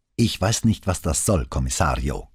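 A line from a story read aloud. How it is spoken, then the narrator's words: Growl. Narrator (German): knurrte Boscaro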